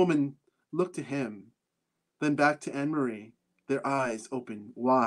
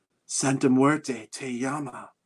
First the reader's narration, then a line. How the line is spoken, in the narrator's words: Anne-Marie whispered